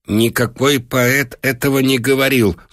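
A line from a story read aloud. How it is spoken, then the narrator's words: Angry objection, master. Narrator (Russian): злобно возразил хозяин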